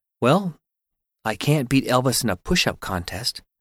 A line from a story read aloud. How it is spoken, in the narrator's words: he said in a very clear voice